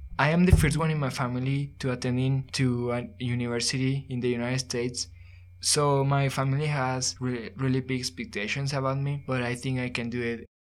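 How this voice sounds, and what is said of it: Non-native English accent. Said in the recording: “I have an accent, so I'm still learning English”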